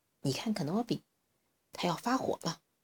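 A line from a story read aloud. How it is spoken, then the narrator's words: Quiet voice. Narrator (Chinese): 小火龙小声说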